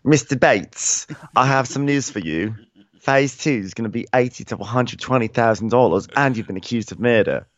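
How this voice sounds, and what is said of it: Phony Downton Abbey-style accent. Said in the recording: “pick a voice, lady. Come on with your phony accents ... would walk into Downton Abbey”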